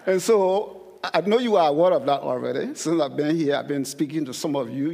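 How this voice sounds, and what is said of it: Thick foreign accent. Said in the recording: “I have a very thick accent... I'm still being told I have a thick accent”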